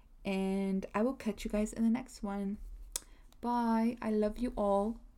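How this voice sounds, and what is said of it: Put-on British accent. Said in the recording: “I need to stop doing that British accent.”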